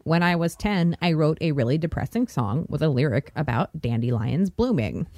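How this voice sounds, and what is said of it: Robotic monotone voice. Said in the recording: “Good robot voice”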